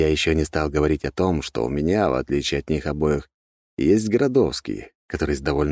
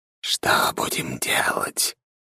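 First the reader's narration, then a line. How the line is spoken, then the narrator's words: Whispered question. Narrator (Russian): шепотом спросил Градовский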